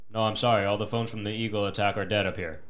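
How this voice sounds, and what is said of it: Flat monotone voice. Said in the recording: “this monotone ass dude goes”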